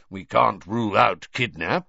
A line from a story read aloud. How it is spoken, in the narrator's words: growled Moody